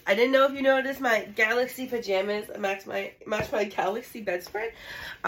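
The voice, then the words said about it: Voice slightly off from cold. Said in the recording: “I'm getting over a cold in case my voice sounds a little off”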